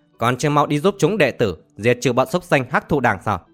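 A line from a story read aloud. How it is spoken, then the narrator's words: Angry, through gritted teeth. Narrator (Vietnamese): Lộc Vọng Phác tức giận gằn giọng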